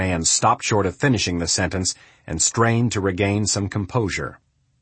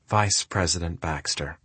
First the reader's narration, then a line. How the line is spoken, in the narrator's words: Kennedy sighed and said